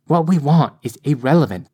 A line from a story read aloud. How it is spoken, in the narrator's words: Mother snapped